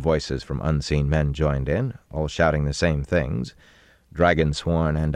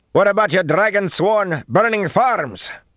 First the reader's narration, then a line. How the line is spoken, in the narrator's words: A man's frightened voice shouted from the trees